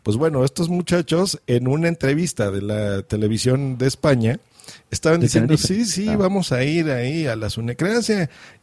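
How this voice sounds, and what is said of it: Mexican Spanish accent. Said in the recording (Spanish): “yo estoy en México, se nota por mi acento.”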